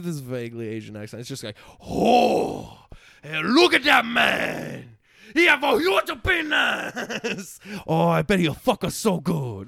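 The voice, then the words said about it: Exaggerated vaguely Asian accent. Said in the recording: “I do this vaguely Asian accent”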